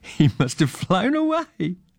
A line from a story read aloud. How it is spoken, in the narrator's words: laughed Joe